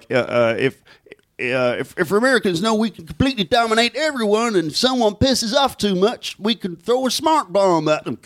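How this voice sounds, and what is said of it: Terrible impression of a co-host. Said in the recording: “That's a terrible impression of me. ... It's pretty awful.”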